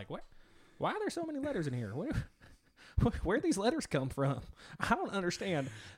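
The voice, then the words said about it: Put-on Kentucky accent. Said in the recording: “in my Kentucky voice.”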